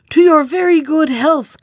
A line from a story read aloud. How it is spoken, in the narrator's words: cried the shepherd before anyone else